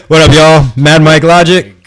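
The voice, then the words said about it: Very loud voice. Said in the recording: “your voice is coming in hella loud.”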